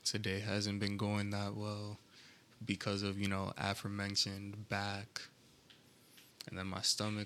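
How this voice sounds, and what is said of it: Flat, monotone lower voice. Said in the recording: “my voice may be a little bit monotone now instead of it being a bit more higher pitched or just higher in general”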